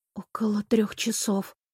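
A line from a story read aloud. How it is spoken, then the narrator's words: Muttered under breath. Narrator (Russian): пробормотала я себе под нос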